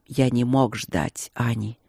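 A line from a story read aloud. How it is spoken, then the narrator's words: Quiet. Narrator (Russian): проговорил он тихо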